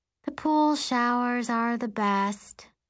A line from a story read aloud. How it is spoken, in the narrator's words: Allison says wistfully